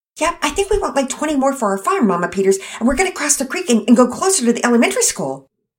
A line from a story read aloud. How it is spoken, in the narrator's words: Penelope exclaimed in her usual fast way of talking